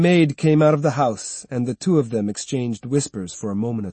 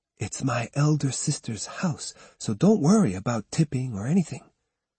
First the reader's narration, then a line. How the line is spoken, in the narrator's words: said quietly